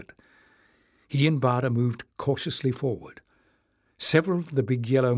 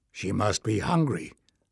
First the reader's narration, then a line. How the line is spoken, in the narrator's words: said Bada